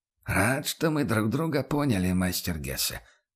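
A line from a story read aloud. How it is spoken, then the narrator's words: Relieved sigh. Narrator (Russian): вздохнул Равин с заметным облегчением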